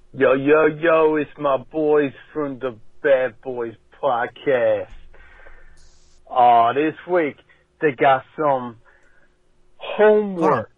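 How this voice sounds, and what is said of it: Put-on New York accent. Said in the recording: “It's like a New Yorker. I'm not a New Yorker, but like an American. ... It's American. ... getting a dollar for the accent. He's doing a New Yorker.”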